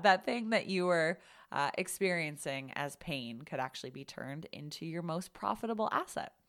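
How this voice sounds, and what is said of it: Hoarse, failing voice. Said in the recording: “Apparently I'm losing my voice.”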